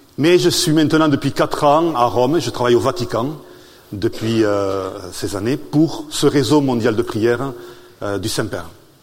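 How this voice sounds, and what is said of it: Southern French accent. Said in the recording (French): “mon accent est du sud de la France, des Hautes-Pyrénées”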